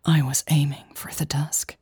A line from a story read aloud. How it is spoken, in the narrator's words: whispered